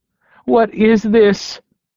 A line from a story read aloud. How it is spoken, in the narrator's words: she cried